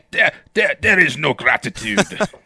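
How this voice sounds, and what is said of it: Exaggerated German accent drifting French. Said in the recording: “over-the-top German accent ... You sound kind of French partway through there.”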